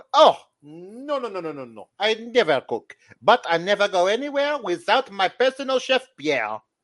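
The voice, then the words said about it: Thick French accent, posh. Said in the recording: “She has a very thick French accent.”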